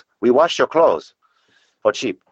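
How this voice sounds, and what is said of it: Mock Chinese accent. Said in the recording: “That's a Chinese accent, by the way.”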